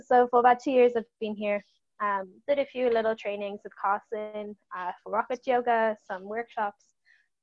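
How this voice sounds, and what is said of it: Somewhat unusual mixed accent. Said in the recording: “As you can hear, my accent's a bit weird.”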